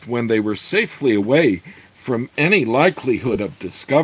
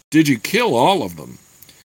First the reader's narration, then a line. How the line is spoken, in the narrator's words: Gord chuckled regretfully